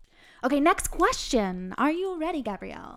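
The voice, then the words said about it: Mock announcer voice. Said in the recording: “I don't know why I'm doing this weird voice ... I love your announcer voice.”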